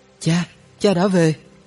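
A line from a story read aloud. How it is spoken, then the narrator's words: Children calling out. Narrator (Vietnamese): hai đứa bé kêu lên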